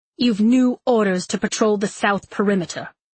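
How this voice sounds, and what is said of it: Crisp, clipped accent. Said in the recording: “He had a crisp, capital accent.”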